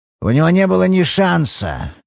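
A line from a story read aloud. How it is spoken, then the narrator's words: Grim. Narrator (Russian): мрачно ответил МакГоуэн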